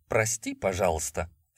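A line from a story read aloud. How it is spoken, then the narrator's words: Ingratiating, hiding irritation. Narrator (Russian): вкрадчиво стараясь скрыть раздражение, обратился я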